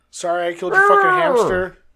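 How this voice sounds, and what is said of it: Attempted Bane voice impression. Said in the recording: “Just do it in the Bane voice ... Can you even do the voice? ... No, that's Frankenstein's monster.”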